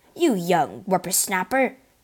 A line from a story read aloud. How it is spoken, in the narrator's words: Porthos bellowed